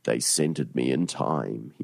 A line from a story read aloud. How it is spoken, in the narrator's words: he moaned